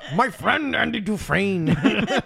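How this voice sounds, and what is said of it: Imitates another person's voice. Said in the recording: “I can only read that book as Morgan Freeman”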